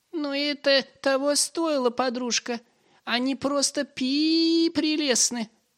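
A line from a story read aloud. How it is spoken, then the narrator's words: Tender squeak of mouse. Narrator (Russian): пропищала худая мышь, с нежностью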